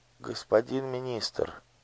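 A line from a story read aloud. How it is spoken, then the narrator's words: Barely audible child. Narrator (Russian): еле слышно проговорил мальчик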